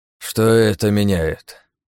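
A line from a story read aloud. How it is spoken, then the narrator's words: Sighing. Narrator (Russian): вздохнул он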